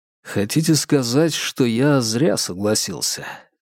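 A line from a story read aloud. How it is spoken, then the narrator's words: Quiet inquiry. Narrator (Russian): тихо поинтересовался Вербин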